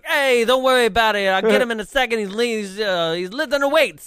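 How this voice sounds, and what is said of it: Odd put-on New York accent. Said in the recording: “do a third impression ... odd New York”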